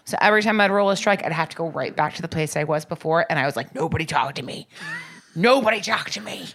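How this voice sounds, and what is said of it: Slightly raspy voice. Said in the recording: “The voice is still a little raspy.”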